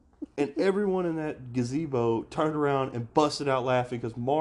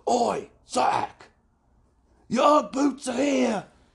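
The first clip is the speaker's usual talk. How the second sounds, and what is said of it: Loud thick Cockney English accent. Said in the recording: “super cool Cockney English guy. And he had this really thick accent... He was really loud.”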